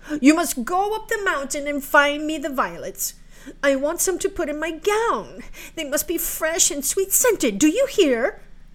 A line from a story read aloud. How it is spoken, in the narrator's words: cried she to Marukla